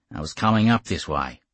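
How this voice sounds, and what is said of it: Raw Australian accent. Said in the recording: “in a raw Australian accent.”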